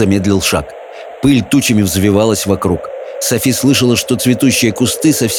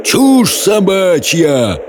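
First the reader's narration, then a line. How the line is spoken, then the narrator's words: Roaring. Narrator (Russian): проревел Хоул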